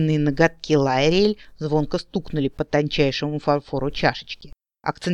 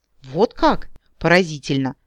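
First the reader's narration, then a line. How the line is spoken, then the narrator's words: Thoughtful. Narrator (Russian): задумчиво молвила хозяйка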